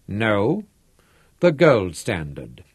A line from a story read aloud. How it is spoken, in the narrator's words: said gravely